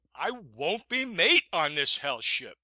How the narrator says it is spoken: I cried defiantly

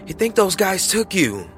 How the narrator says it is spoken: I yelled out

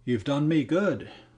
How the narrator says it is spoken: said James, with a sigh of relief

